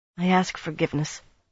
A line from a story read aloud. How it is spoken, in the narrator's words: Garinia mumbled at Nynaeve